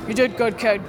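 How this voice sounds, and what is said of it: Imitates another person's voice. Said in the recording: “good dad impression”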